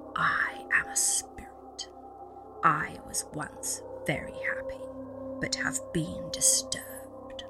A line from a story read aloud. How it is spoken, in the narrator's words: a rasping voice answered